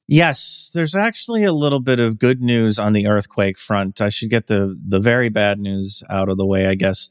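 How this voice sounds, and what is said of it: Congested voice from a cold. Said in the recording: “apologize for my voice because I have like a cold or allergies or something”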